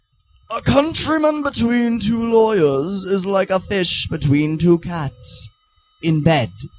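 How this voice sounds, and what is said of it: Put-on old American founding-father accent. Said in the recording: “old American founding fathers accents”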